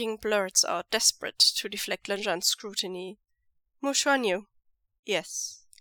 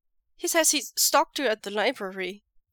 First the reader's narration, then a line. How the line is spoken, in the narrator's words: Wei Ying blurts out